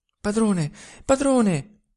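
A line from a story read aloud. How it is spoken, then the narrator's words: Panting, stifled reply. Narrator (Italian): rispose quella con voce ansante, soffocata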